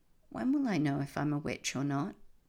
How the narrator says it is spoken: Rose sighed

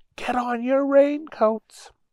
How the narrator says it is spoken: their mom yelled

